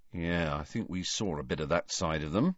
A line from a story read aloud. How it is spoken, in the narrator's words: said Ron in an undertone